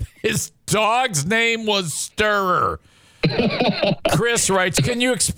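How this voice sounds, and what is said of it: Usual voice. Nothing is said of it.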